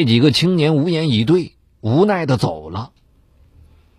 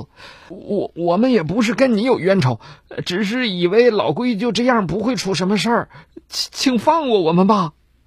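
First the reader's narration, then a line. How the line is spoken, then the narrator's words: Mournful pleading. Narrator (Chinese): 那几个肇事者坐不住了，哭丧着脸哀求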